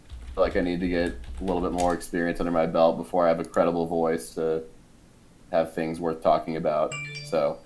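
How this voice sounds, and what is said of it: Deep, monotone voice. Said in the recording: “a really deep voice that's probably good for radio. ... I'm a little too monotone”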